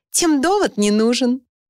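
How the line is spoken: Laughing. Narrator (Russian): смеясь, дополнила

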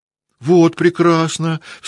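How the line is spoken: Sharp cry. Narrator (Russian): вскрикнул Петя

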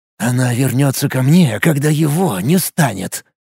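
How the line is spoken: Savage whisper. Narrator (Russian): С каким-то зверским блеском в глазах прошептал он

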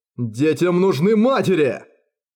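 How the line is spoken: Roared. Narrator (Russian): Проревел Ангасун

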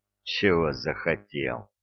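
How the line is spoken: Grumbling. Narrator (Russian): проворчал Разумовский

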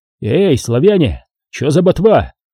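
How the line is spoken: Shouted. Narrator (Russian): крикнул Виктор

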